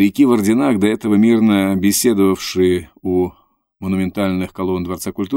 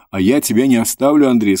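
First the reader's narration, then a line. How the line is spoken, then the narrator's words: Plain. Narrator (Russian): сказала Лора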